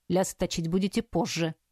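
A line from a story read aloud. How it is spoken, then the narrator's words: Grunt into beard. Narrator (Russian): хмыкнул в бороду Асгорн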